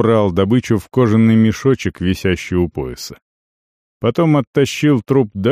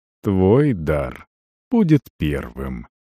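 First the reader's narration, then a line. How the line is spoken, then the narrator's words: Almost tender. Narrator (Russian): сказал почти ласково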